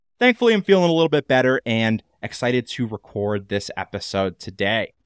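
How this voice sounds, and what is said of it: Nasal voice from a cold. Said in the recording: “my voice is a little bit more nasally than usual this week... one person in our family is always getting sick”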